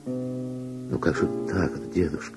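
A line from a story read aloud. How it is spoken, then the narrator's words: Soft objection. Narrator (Russian): мягко возразила Вера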